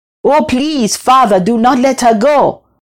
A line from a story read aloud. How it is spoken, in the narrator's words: she cried hysterically